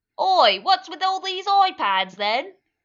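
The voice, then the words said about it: Put-on cockney British accent. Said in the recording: “Probably has a British accent. ... Just give him a really cockney accent.”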